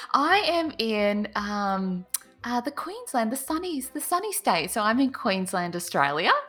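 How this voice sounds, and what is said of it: Australian accent. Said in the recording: “joining me, of course, from Australia ... Don't know if my accent kind of comes out a bit more there.”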